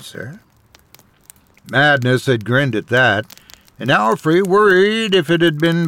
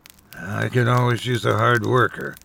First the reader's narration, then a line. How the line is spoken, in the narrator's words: grumbled